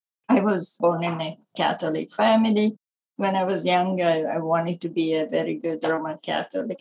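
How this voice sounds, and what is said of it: Italian accent. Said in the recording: “I was born in Italy, as you can tell by my accent.”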